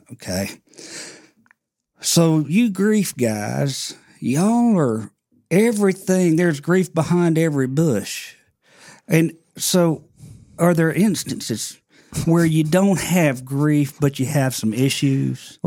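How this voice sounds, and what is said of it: Put-on Mississippi Southern accent. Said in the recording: “He's from Mississippi, so he has a little accent.”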